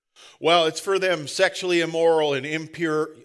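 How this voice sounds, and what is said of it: Put-on Southern US accent. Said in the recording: “I'm sorry about the southern accent. It's just more fun.”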